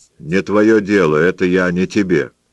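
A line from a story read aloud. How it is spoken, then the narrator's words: Plain. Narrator (Russian): сказал Ансельму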